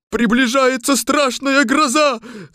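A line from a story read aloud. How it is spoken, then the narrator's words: Shouted. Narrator (Russian): закричал железный дровосек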